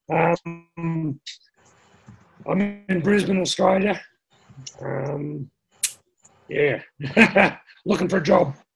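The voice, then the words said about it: Voice sounds off, unwell. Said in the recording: “my voice has gone a bit funny”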